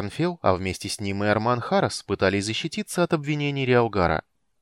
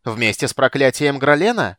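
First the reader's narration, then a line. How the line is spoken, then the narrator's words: Shouting. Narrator (Russian): кричал Риалгар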